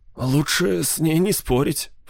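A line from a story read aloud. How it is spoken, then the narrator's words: Whisper. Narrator (Russian): прошептал Арнольд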